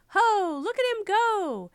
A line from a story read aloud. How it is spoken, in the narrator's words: shouting